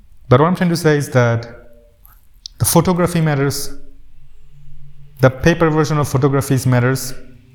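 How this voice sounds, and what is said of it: Emotional, slightly choked-up voice. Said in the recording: “getting emotional a little bit”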